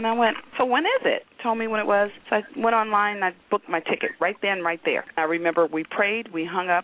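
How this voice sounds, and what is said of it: Usual voice. Nothing is said of it.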